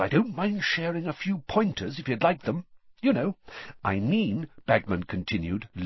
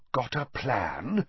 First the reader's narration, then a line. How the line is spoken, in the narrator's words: said Bagman, lowering his voice conspiratorially